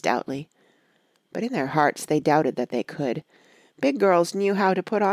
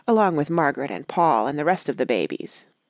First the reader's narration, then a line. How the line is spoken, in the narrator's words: said Betsy bitterly